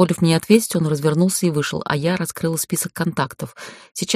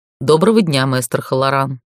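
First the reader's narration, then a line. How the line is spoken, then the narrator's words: Very dry, emotionless. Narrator (Russian): Голос председателя звучал очень сухо, словно из него выжили остатки эмоций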